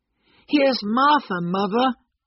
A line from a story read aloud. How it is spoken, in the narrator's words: cried the two young Cratchits happily